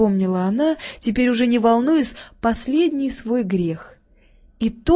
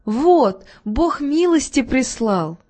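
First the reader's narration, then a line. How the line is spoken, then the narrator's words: Joyful exclamation. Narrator (Russian): Видя входящих в кухонную дверь детей, радостно воскликнула Катерина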